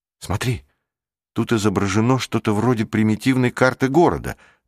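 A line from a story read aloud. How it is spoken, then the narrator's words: Cried out. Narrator (Russian): вскрикнул Рик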